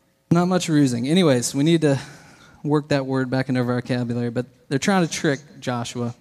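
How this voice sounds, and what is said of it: Usual voice. Nothing is said of it.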